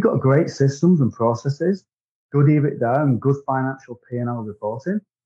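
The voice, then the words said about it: British Wigan accent. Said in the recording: “your accent obviously, you know, screams that you're not, you know, from, you know, Mississippi or Florida ... I'm from Great Britain. I'm in a town called Wigan, which is my accent.”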